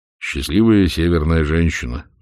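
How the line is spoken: Sighing. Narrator (Russian): вздохнул Блас

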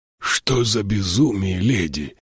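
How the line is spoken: Groaning. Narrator (Russian): простонал Тайгер

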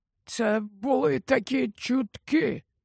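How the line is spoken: Whisper. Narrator (Ukrainian): прошепотів Олівандер

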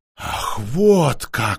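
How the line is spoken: Through gritted teeth. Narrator (Russian): сквозь зубы процедила Алисандра

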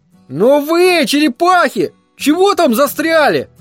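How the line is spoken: Yelling while laughing. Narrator (Russian): заорал Верн, все еще хохоча

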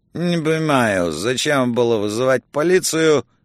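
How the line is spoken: Mumbling. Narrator (Russian): бормоча

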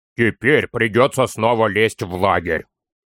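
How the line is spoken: Grumbling. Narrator (Russian): проворчал Торин

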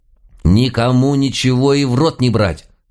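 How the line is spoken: Stern warning. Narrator (Russian): строго предупредила бабка

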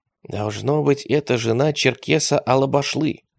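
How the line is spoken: Whispering. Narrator (Russian): шепнул поэт атаману

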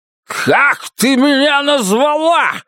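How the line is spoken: Shout. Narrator (Russian): закричал он

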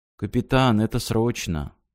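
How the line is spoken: Sad. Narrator (Russian): грустно спросил техник

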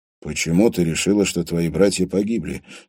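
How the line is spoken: Forced calm question. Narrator (Russian): спросил Андрей, стараясь говорить спокойно

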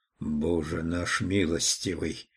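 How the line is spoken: Whispering. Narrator (Russian): прошептал он

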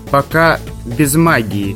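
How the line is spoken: Muttered. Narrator (Russian): пробурчал Асхар

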